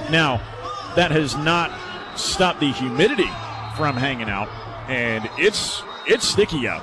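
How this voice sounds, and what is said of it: Strained voice, starting to go. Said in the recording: “humidity is awful for your voice. Y'all can probably hear, I'm already losing my voice”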